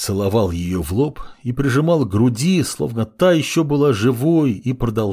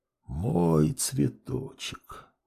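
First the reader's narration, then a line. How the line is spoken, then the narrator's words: Father whispering. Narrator (Russian): продолжал шептать отец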